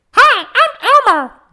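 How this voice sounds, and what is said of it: Imitates the Elmo character voice. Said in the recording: “I can do Elmo.”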